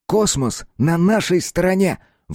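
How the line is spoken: Exclaiming. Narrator (Russian): воскликнул Коля

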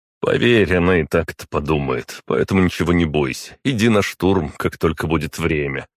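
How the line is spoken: Wry snort. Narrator (Russian): хмыкнул я

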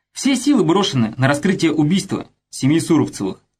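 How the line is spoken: Plain. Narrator (Russian): ответил Пафнутьев

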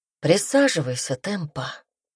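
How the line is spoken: Soft. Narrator (Russian): мягко сказал Пайер

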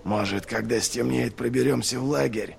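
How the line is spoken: Whispering. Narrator (Russian): зашептал он

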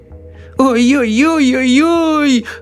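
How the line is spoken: Old woman sobbing. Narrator (Russian): рыдала бабушка Джозефина

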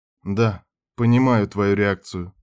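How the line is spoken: Calm. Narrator (Russian): спокойно сказал Питер

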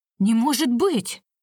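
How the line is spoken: Startled cry. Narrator (Russian): вскрикнула хозяйка

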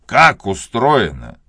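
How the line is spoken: Father's angry question. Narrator (Russian): сердито спросил отец

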